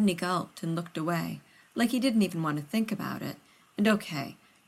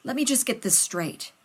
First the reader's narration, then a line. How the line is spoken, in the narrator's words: Rodney said